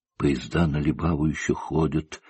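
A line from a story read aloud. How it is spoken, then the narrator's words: Passionate whisper. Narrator (Russian): страстно шептала она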